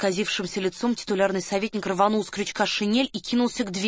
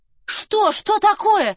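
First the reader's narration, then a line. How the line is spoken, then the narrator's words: Frantic scream. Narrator (Russian): истошно закричала Варя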